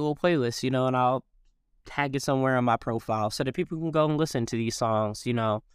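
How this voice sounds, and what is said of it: Usual voice. Nothing is said of it.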